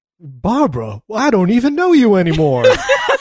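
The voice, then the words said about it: Impression of a movie character's voice. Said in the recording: “That was a perfect impression.”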